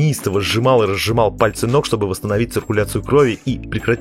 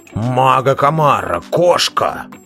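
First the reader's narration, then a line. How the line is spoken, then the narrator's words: Roaring. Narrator (Russian): Снова взревел Белвар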